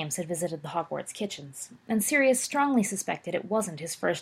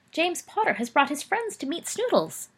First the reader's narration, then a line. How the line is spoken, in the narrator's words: the house elf squeaked